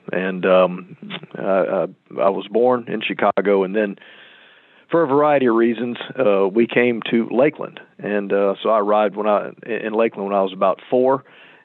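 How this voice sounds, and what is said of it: Central Florida accent. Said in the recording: “this is a native Central Florida accent.”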